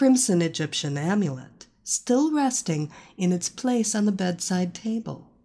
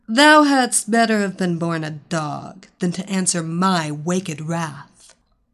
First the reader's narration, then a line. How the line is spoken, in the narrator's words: Evilena spat out